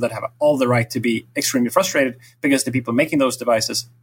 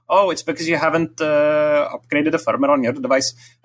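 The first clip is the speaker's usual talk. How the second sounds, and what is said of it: Put-on French accent. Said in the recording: “That was French. That sounded very French.”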